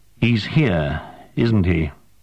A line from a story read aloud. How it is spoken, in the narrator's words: sighed and said